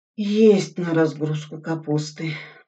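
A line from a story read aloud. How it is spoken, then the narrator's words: Dejected voice. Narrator (Russian): упавшим голосом сказал Суслин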